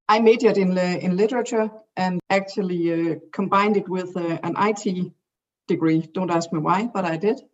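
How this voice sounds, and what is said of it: Thick Danish accent. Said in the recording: “I live in Denmark, as you can probably hear from my thick accent”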